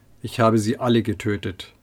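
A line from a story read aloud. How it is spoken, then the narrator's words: Flat toneless reply. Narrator (German): gibt tonlos zurück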